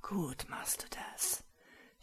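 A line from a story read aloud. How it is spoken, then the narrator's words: Hoarse groan. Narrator (German): stöhnte heiser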